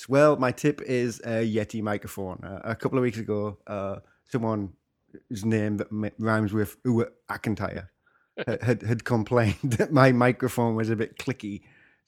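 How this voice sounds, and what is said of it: Accent neither English nor American. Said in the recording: “I sound really sexy right now. ... The svelte tones of ... not English, not American accent”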